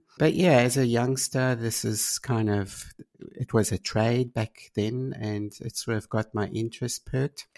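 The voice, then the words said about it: South African accent with German mix. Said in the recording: “I started back in South Africa and hence probably my accent. I can't quite lose that. ... Bit of a mix of German.”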